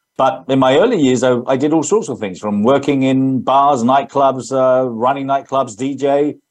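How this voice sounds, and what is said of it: English accent. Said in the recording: “That's my English accent”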